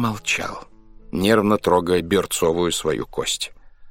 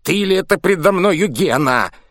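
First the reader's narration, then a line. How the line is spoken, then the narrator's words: Furious hungover shout. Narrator (Russian): яростно уже закричал похмельный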